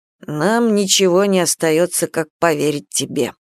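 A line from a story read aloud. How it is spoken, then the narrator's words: Grumbled. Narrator (Russian): пробурчал Камышин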